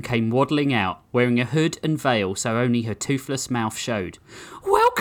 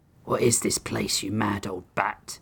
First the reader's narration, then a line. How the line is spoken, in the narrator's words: Tabor hissed